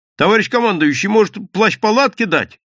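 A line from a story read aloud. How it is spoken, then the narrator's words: Shouted after someone. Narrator (Russian): крикнул вдогонку Гудков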